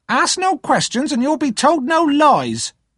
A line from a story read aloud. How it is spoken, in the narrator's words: snapped in reply